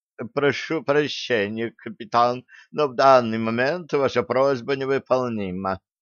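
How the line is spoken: Dejected sigh. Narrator (Russian): Удрученно вздохнула Нола

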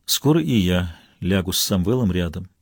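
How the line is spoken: Muffled, dull voice. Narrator (Russian): глухо добавила

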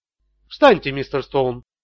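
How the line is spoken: Quiet. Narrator (Russian): тихо проговорил Тони

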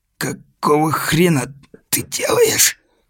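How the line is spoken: Quiet hoarse wheeze, shaken. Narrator (Russian): просипел тихо Сэм, только оправившись от недавней конвульсии и отчасти от сильных оплеух компаньона

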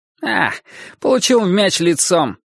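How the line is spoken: Cheerful reply. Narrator (Russian): бодро ответил он

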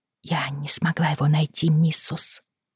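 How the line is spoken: Muttered reply. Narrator (Russian): пробормотала Анджелина в ответ

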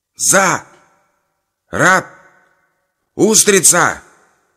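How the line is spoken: Shouted together. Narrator (Russian): крикнули братья

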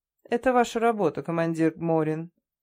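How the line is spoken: Dry reply. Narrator (Russian): сухо ответил Гольцов

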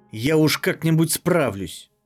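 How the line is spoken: Snapping. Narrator (Russian): огрызнулась Мизмадра

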